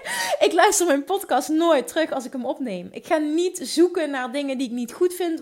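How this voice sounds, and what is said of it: Limburg Dutch accent. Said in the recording (Dutch): “ik praat Limburgs, ik heb een Limburgs accent ... mijn Limburgse accent”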